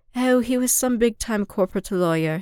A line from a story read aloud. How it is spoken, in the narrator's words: he sighed